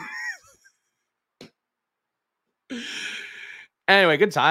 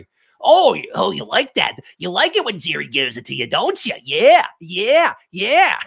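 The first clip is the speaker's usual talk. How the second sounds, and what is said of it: Silly impression voice. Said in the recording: “Some silly voice. Me doing an impression of Jerry.”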